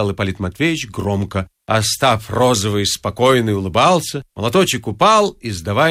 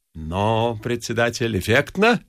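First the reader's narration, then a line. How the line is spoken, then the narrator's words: Plain. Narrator (Russian): спросил Остап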